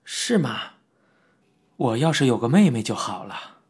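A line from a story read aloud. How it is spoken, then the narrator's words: Sighing exclamation. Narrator (Chinese): 我感叹道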